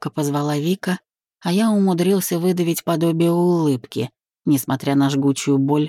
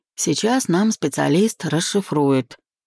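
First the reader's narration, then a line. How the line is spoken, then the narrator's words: Hoarse reassurance. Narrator (Russian): успокоил хрипло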